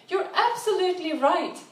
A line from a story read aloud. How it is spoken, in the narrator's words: he exclaimed